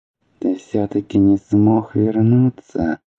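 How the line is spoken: Sighing. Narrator (Russian): вздохнул Аобран

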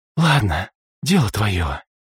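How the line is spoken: Sigh. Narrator (Russian): вздохнула Саммер

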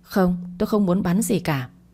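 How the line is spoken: Embarrassed stammer. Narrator (Vietnamese): làm cho hai má ửng hồng lên, miệng lắp bắp bảo

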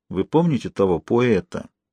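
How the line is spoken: Quiet speech. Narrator (Russian): Сибуле тихонько сказал Жанне

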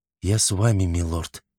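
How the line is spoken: Whisper. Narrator (Russian): прошептала

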